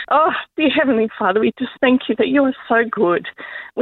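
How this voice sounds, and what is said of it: Teary, emotional voice. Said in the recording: “excuse me if it's a bit teary”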